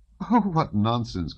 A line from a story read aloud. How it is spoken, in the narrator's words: cried Natasha, laughing